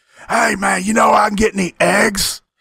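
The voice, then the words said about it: Impression of Tommy Rich. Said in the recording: “let me try to do your voice, Tommy.”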